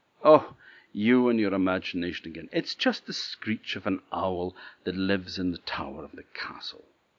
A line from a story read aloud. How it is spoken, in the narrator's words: laughed at her and said